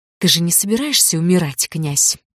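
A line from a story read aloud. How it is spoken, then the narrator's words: Mumbled. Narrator (Russian): пробормотала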